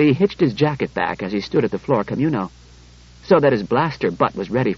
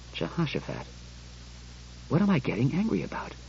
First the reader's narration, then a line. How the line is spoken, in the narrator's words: He went on more calmly